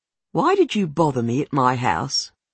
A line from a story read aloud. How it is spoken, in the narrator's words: she says